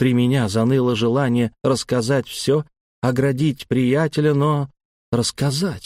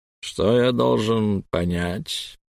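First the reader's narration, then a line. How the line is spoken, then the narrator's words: Fat man's ingratiating question. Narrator (Russian): вкрадчиво спросил толстяк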